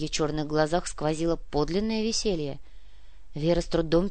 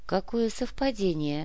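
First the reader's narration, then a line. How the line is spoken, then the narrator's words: Calm with rising anger. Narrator (Russian): Все еще спокойно, но чувствуя нарастающий гнев, произнесла Вера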